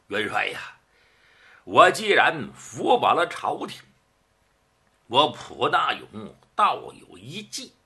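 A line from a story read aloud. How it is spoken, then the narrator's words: Slight smile. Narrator (Chinese): 蒲大勇微含一笑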